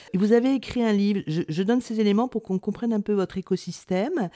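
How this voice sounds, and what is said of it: Congested, sore-throated voice. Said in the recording (French): “excusez-moi pour l'accent, mais vu mon rhume et mon angine, aujourd'hui, je ne peux faire aucun effort.”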